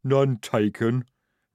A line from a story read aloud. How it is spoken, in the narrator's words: rumbled Jade